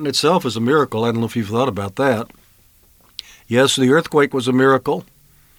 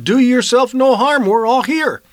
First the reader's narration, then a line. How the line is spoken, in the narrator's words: Paul called out and said